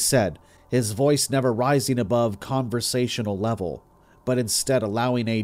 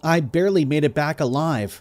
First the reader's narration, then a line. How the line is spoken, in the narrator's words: said frantically, unbelieving